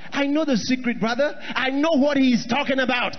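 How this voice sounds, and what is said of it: Shouting preacher delivery. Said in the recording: “Let me tell you why I'm shouting... I want to tell you why I'm shouting”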